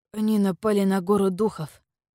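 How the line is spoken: Hoarse wheeze. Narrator (Russian): прохрипел Вэйдун

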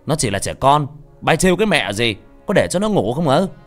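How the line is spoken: Man shouting. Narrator (Vietnamese): Ông hét lên

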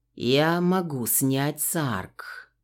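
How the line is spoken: Calm. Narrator (Russian): спокойно произнес он

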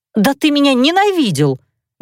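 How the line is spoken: Heated exclamation. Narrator (Russian): горячо воскликнула я

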